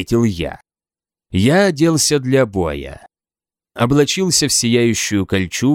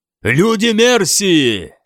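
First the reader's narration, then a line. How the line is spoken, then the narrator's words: Very loud shout. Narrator (Russian): прокричал я так громко, что меня услышал не только отряд Алтхельма, но и войска восточных саксов на дальнем берегу реки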